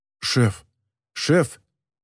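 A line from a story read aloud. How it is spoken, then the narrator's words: Choked mutter. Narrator (Russian): пробормотал Гурель сдавленным голосом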